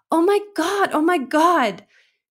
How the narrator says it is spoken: She screamed once more

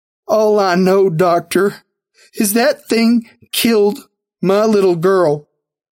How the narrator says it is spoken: she replied, her voice choked with sobs

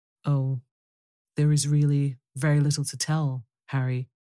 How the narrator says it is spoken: answered the painter

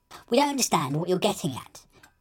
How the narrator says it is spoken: elf piped up

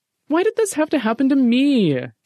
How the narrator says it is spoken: Jeffy whined

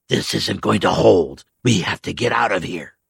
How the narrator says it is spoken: He hissed a low whisper

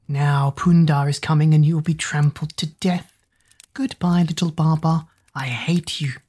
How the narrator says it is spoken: Hoodoo slid off into the grass, hissing

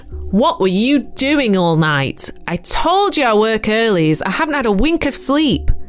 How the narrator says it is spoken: Panicked, he towered over me and bellowed

